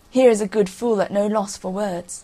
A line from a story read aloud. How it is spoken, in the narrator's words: The king and his barons laughed and said